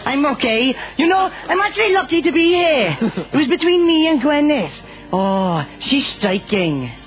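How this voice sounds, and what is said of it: Welsh Rhondda Valley accent. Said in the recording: “that gorgeous accent straight out of the Rhondda Valley”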